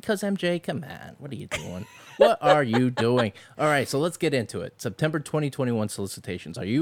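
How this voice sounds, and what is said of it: Usual voice. Nothing is said of it.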